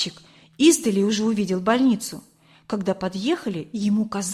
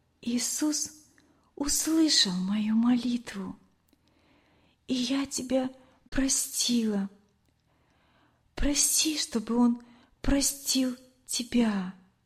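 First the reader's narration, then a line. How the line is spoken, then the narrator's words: Soft whisper. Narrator (Russian): Лена тихо прошептала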